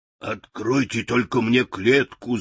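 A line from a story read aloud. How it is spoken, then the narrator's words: Lion's growl. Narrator (Russian): зарычал лев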